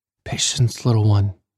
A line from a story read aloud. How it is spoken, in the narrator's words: he whispered